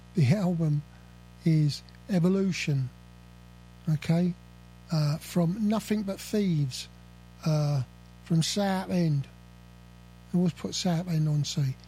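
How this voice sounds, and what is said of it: South London accent. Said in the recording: “Lot of the South London accent coming out on me today”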